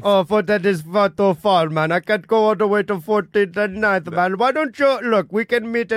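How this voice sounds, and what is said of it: Put-on Indian accent. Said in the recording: “does a voice of every ethnicity ... give us an Indian Uber driver”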